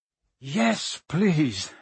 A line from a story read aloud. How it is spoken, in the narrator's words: Harry panted